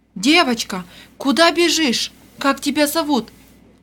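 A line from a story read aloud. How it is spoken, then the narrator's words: Agitated voice. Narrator (Russian): Взволнованным голосом обратилась она к Вере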